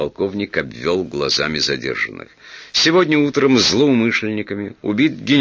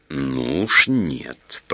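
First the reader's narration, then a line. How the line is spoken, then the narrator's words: Hissing. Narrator (Russian): прошипел Петр Иванович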